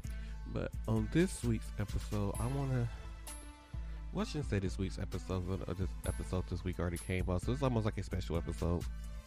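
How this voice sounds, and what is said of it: Congested, strained-sounding voice. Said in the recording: “Excuse my voice a little bit. My allergies are still bothering me quite a lot.”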